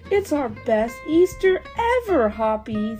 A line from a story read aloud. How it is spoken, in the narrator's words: they shouted